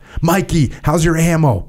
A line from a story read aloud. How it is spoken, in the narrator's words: yelled JP